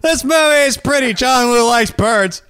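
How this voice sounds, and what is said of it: Imitates another person's voice. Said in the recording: “My best impression of Woody doing movie.”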